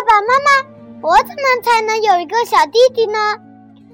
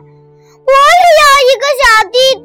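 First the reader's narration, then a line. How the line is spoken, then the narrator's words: Disappointed shout. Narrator (Chinese): 卡梅利多遭到拒绝后，他失望的大喊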